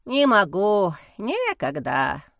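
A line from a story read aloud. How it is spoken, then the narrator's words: Sigh. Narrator (Russian): вздохнул Герасим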